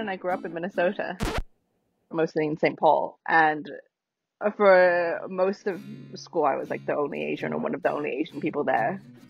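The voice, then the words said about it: Generic Southern English accent. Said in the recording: “Notice how she doesn't talk like me. ... I just picked up what was a very generically Southern English accent.”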